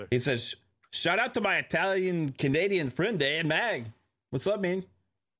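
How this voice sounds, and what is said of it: Put-on Mexican accent. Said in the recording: “Why are you accent? Mexican all of a sudden?”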